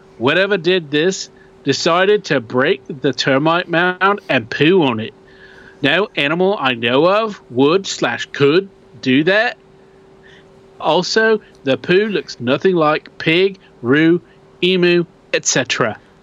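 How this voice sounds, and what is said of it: Put-on Australian accent. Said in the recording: “That wasn't too bad, dude. That wasn't too bad at all. Australian accent is one of the hardest things to do... everything gets kind of caught back in the throat, which is different than the British.”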